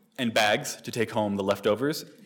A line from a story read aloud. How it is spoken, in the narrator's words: asked Bridget